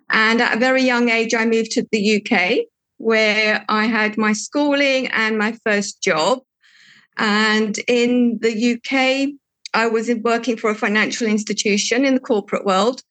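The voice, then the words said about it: English accent. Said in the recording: “that's where I've got my English accent from”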